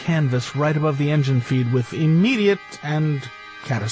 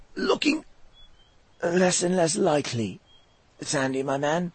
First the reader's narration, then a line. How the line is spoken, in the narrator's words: he croaked